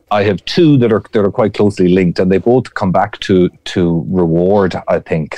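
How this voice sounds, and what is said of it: Speaker with a noticeable accent. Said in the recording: “is the one with the accent”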